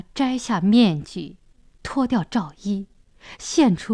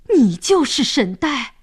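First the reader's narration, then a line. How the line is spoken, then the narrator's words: Surprised shout in unison. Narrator (Chinese): 三位神明惊讶地齐声喊道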